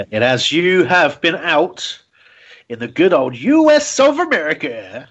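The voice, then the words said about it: Put-on American accent. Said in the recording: “That's my accent.”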